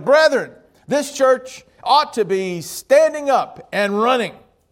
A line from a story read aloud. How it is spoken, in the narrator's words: the preacher shouted